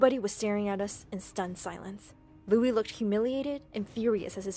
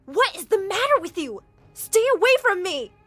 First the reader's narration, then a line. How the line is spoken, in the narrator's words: screamed